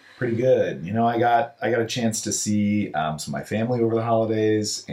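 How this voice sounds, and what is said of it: Worn-out, strained voice. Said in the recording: “my voice is a little shot today because I'm a huge UH Cougars fan, and I went to a basketball game yesterday, and I did a lot of cheering”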